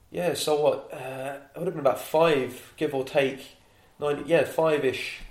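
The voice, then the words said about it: London accent with Irish touches. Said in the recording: “you are a Londoner ... My accent is all about the place. I've got a bit of East London there, I've got a bit of Irish there”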